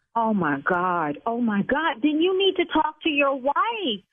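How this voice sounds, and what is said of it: Yelling, raised angry voice. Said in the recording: “See, now I'm yelling”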